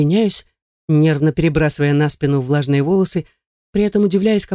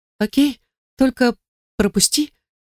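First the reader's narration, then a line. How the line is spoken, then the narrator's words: Timid whisper. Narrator (Russian): робко шепчу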